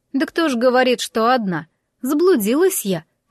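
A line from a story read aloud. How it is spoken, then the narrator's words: Theatrical sigh. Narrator (Russian): картинно вздохнула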